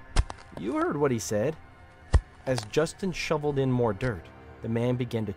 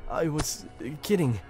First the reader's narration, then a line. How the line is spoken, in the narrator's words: he sputtered